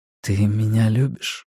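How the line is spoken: Quiet, muffled in hair. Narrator (Russian): тихо сказал он в ее волосы

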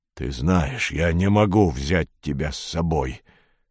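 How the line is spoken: Soft, gentle. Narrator (Russian): мягко сказал Боб

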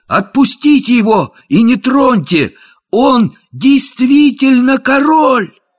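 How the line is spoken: Ringing shout. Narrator (Russian): Том Кенти звонким голосом крикнул

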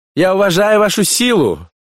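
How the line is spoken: Shouting. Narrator (Russian): закричал кукуратор

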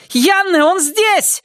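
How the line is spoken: Shouting. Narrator (Russian): закричала она

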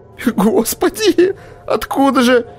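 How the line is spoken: Moaning. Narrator (Russian): простонал Висконский

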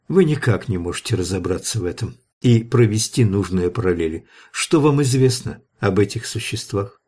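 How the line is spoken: Melancholy sigh. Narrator (Russian): Гроссвенф тоскливо вздохнул

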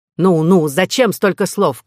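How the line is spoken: Shout. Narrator (Russian): крикнул король

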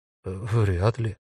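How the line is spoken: Stranger, bewildered. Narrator (Russian): растерянно сказал незнакомец

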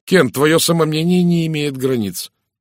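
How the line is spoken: Exclaiming. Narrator (Russian): воскликнул Розамунд

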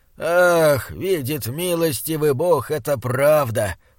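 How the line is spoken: Moaning. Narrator (Russian): простонал он

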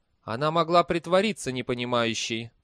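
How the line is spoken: Cold. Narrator (Russian): холодно сказал Либич

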